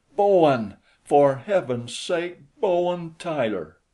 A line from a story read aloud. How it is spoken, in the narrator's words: I cried